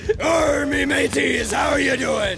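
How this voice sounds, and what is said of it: Pirate voice. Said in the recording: “your best pirate impression.”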